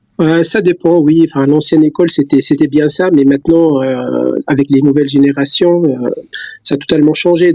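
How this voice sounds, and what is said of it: Light Tunisian accent in French. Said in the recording (French): “un léger accent qui vient de l'autre côté de la Méditerranée ... Je suis d'origine tunisienne, donc j'ai gardé l'accent.”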